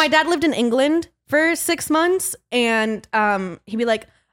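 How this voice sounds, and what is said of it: Usual voice. Nothing is said of it.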